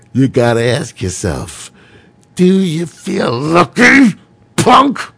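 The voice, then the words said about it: Imitates a movie character's voice. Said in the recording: “my imitation ... Dirty Harry”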